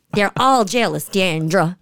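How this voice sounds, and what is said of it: Imitation of Mama D's accent. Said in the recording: “Can you do her accent?”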